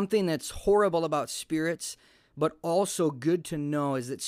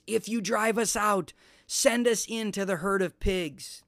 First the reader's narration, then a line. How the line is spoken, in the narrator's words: The demons begged Jesus